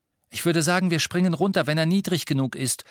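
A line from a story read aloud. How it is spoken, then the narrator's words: Calling back to others. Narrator (German): rief Harry nach hinten den anderen zu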